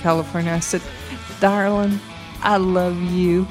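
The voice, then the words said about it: Put-on Texas accent. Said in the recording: “in my very best Texas accent,”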